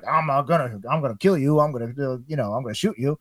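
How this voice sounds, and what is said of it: Cable impression resembling Foghorn Leghorn. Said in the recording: “your Cable impression. ... And that sounds a lot like what is it? Foghorn Leghorn.”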